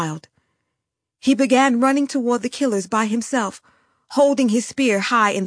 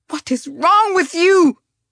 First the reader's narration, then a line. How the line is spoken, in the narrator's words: She shrieked at the younger Tutsis in the crowd